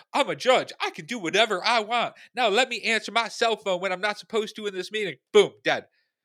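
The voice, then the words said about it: Put-on Southern accent. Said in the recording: “you are crushing the accents, man. ... You just went Southern.”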